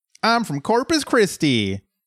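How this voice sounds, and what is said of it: Put-on Texas accent. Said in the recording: “That's my Texas accent, by the way. There's a reason I didn't do it earlier.”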